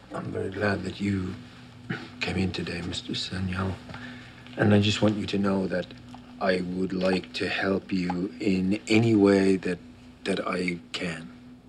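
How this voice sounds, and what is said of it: Irish accent. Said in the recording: “I had an Irish friend in the university. I recognize the accent.”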